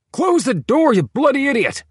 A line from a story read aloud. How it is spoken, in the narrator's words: yelled Stubby Bill